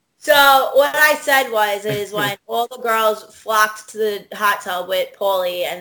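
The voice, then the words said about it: New York accent. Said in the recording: “a really thick New York accent ... Everybody says I have one.”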